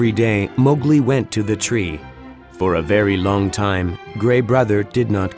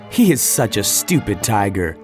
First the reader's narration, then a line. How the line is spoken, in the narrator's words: laughed Mowgli